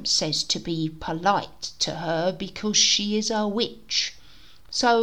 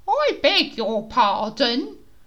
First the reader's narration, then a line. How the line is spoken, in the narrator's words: Miss Jenkins from across the road cried out